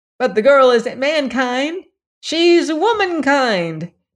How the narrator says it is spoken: yelled a corkscrew

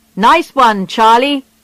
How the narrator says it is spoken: shouted when they heard the news

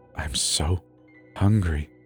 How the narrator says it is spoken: he whispered

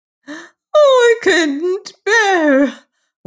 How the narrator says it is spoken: wailed

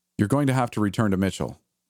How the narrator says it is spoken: I said firmly, hoping the pretender would not notice the slight quiver in my voice

